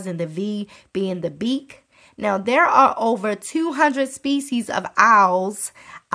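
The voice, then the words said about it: Baltimore accent. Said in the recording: “there go that Baltimore accent, honey”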